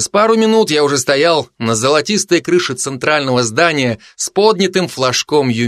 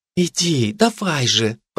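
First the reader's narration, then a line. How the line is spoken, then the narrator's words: Smiling whisper. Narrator (Russian): прошептала она с улыбкой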